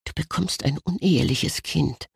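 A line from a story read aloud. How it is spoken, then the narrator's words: Said quietly. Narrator (German): sagte er leise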